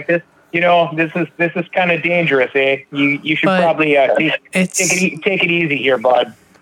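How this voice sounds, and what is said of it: Mock Canadian accent. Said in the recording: “I like Canadian accent. I apologize.”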